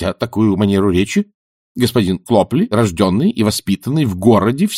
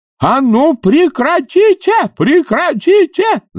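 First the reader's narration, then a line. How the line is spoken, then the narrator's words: Yelling. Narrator (Russian): завопил он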